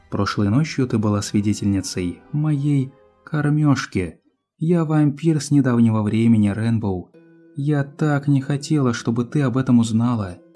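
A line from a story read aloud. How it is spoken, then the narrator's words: Sighing. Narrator (Russian): вздохнула Твайлайт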